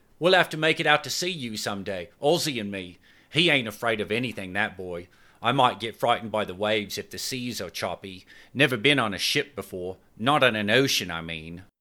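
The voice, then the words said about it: Cockney accent. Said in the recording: “she exclaimed in her Cockney accent.”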